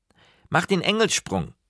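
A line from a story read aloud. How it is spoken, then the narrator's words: Calling after. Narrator (German): rief er hinter mir her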